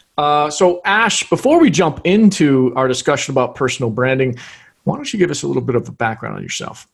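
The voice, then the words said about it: American English accent. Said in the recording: “I, am listening to your accent and I love it too ... sounds like you because she learned she learned English through watching American TV”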